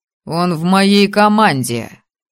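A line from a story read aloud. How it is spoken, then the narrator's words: Cold, clipped declaration. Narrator (Russian): холодно отчеканил Мэтт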